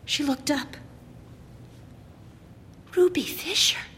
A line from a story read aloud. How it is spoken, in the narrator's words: she whispered